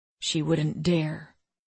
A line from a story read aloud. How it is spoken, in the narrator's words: Nate rumbled in a low, dark voice